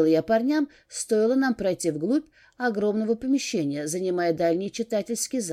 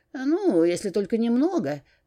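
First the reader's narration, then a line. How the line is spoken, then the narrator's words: Snort. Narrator (Russian): хмыкнул Эрик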